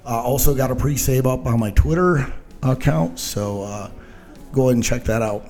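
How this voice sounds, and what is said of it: Out of breath. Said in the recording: “I don't know why I'm out of breath. I think I need something to drink or something. It's kind of hot in here.”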